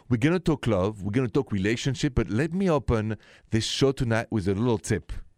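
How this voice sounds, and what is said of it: French accent. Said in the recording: “the accent is French, français, straight from Paris”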